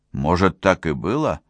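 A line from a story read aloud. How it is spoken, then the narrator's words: Plain. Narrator (Russian): сказал Кунц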